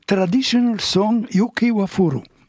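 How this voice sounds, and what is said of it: English with a Japanese accent. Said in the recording (French): “avec l'accent japonais”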